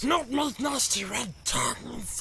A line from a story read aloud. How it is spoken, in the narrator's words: hissed Gollum